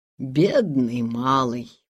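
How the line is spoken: Mumbling. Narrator (Russian): пробормотал он

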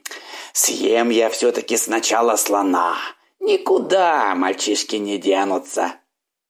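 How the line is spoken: Growling. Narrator (Russian): зарычал

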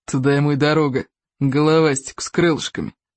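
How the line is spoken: Quiet whisper. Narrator (Russian): тихо шепнул он письи духу Тугодума

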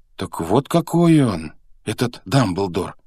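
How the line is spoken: Exclaimed. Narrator (Russian): воскликнул Гарри

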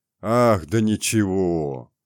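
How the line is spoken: Deep bass voice. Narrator (Russian): ответил кто-то басом

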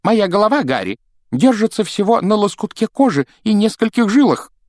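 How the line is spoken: Exclaimed. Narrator (Russian): воскликнул он

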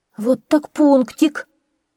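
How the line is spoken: Exclaimed. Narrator (Russian): воскликнул Джейми

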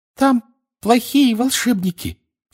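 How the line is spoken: Flustered squeak. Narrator (Russian): в смятении пищала она

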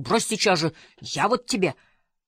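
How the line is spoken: Fierce growl through clenched teeth. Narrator (Russian): Васька свирепо зарычал, не выпуская из зубов своей жертвы

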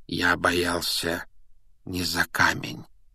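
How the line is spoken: Gentle correction. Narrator (Russian): мягко поправил его Дамблдор

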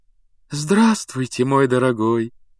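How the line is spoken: Cooing. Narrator (Russian): проворковала она

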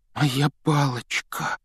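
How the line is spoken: Trembling voice. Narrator (Russian): дрожащим голосом произнес Рон

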